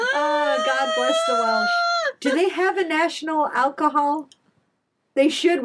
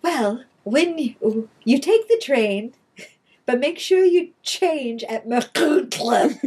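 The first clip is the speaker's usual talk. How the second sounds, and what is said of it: Put-on British station announcer accent. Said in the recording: “this beautiful British accent”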